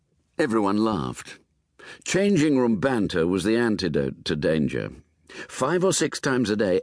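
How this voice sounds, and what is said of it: Usual voice. Nothing is said of it.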